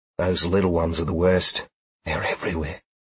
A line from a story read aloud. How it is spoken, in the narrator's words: Sheila whispered